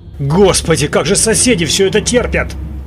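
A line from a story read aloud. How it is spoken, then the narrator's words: Astonished exclamation. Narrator (Russian): Пораженно воскликнул я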